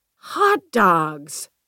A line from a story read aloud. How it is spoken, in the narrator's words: Gwendy exclaimed